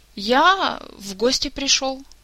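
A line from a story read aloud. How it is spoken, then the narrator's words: Bewildered, slightly frightened. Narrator (Russian): растерянно произнес вождь и идеолог, слегка испуганный таким поведением хозяина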